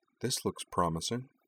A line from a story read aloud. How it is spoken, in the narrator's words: Cora murmured